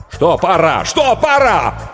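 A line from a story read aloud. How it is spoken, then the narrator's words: Nervous shout. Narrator (Russian): Букер нервно закричал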